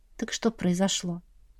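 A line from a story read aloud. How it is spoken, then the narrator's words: Gentle. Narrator (Russian): мягко напомнила я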